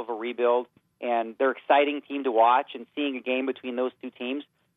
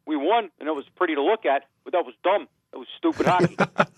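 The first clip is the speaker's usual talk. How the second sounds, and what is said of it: Imitates another person's voice. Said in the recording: “good Mike Babcock impression”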